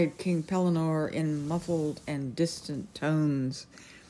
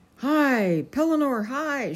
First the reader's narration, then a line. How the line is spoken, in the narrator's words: shouted Sir Grummore